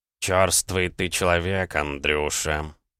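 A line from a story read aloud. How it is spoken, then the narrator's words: Angry grumbling cat. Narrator (Russian): пробурчал кот, бросая на меня злобные взгляды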